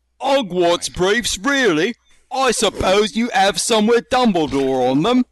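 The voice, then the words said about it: Put-on British accent. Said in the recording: “You mean these accents? ... after all the fucking hate crimes that the British have inflicted on us”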